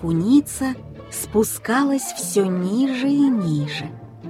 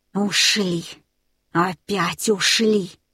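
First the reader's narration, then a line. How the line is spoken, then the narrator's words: Hoarse rasp. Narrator (Russian): прохрипел Смир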